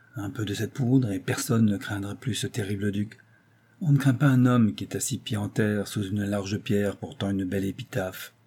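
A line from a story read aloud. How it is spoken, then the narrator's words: Muffled voice. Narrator (French): fit-il d'une voix sourde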